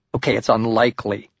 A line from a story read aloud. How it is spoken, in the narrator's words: I replied